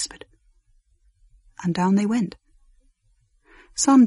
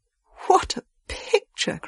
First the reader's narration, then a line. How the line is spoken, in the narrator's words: cried the ladies